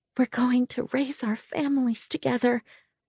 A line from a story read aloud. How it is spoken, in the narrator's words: she whispered in my ear